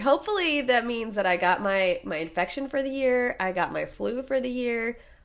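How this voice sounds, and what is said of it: Hoarse sick voice. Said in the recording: “sorry for the voice that you still get to hear because this is a two-parter. So you get sexy voice round two.”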